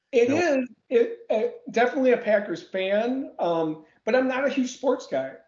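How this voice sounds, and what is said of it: Midwestern American accent. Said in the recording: “you can tell from your accent that you're from Texas or the Midwest”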